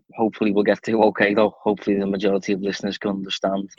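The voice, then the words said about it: Strong Scouse accent. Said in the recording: “I have a very strong Scouse accent.”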